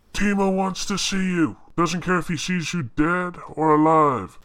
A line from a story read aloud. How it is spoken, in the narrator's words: A large prune-faced Weequay shouts